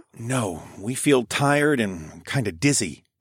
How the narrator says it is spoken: I whispered back to her

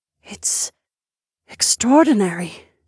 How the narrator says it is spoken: Sorsha murmured

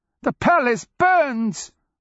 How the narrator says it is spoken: one old crone cried

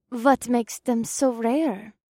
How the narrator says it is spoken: Kaas asked in a sweet, innocent voice

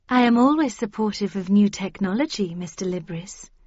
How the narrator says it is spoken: said Lady Cavendish kindly

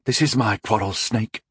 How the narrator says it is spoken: Rondol murmured

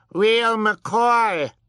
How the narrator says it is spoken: Sunny yelled

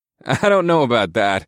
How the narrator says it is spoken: I chuckled nervously

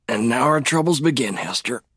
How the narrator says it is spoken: Lee muttered, struggling to pull himself upright

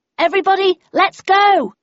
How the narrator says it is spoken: I shouted

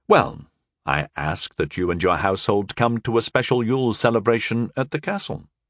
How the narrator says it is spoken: I said gently

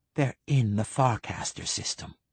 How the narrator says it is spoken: he whispered

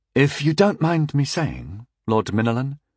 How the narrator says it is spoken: Festeren offered hesitantly

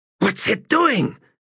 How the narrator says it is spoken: he hissed

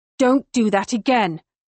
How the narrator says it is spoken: I snarl at him

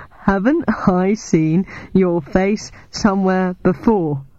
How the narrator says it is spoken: he giggled

